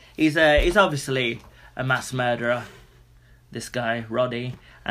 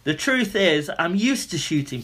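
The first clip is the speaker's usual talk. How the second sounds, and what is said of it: Put-on foreign accent quoting someone. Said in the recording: “Sorry, the accent.”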